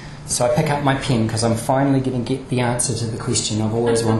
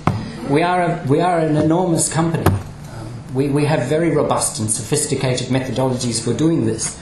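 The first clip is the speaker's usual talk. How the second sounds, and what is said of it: Put-on German accent. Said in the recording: “This is my German accent.”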